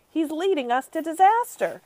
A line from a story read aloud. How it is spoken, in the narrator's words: cried the head of the Air Force